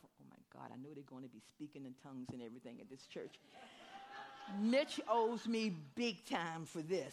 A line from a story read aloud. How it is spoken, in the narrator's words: I was muttering to myself